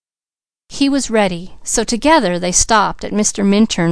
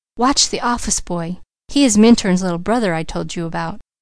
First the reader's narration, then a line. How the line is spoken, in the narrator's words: Douglas whispered